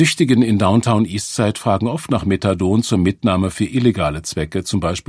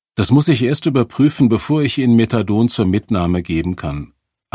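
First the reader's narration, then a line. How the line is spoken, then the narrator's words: Plain. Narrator (German): antwortete ich Serena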